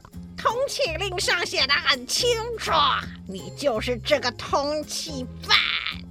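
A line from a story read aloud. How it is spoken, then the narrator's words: Loud scolding shout. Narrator (Chinese): 他大声斥喝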